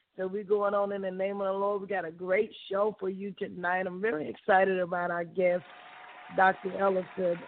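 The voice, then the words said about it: Slightly hoarse voice. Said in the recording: “forgive my voice. You know, we're a little hoarse”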